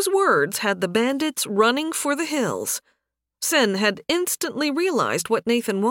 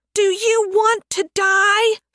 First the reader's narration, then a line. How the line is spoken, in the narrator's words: Sen screamed